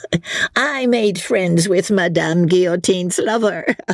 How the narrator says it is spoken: she said, with a coarse laugh

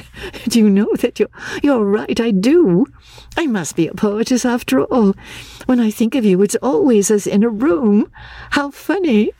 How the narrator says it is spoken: said, laughing

